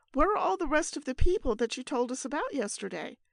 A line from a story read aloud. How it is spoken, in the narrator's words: Cousin John exclaimed